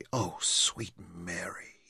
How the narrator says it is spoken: he whispered

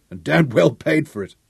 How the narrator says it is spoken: grunted Sean

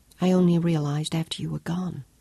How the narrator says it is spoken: whispered

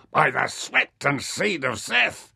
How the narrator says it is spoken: he shouted

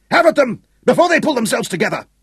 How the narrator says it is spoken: Hal screamed

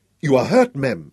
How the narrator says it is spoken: cried

